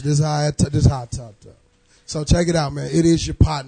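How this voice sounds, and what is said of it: Hoarse voice. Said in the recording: “I'm a little hoarse from last night... so I'm a little hoarse.”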